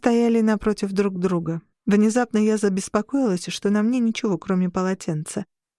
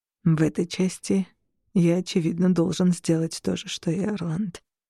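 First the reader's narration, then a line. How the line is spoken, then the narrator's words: Quiet. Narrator (Russian): тихо произнес Шон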